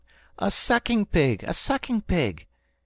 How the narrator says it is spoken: Jack cried out

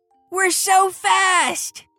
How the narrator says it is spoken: shouted Logan

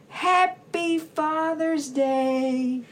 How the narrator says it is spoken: We shouted

